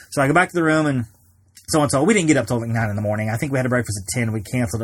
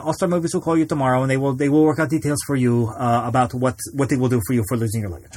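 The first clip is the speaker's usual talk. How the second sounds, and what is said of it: Bad, hard-to-understand put-on accent. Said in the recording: “Bad accent. I know. It's probably an indecipherable accent”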